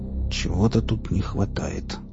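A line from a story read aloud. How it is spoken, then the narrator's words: Mutter. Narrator (Russian): пробормотал он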